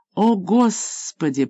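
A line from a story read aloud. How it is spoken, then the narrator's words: Groaning. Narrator (Russian): простонал Билл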